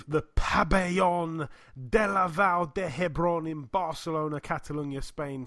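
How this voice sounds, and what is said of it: Put-on accent on place names. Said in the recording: “Still managed to break out the accent there.”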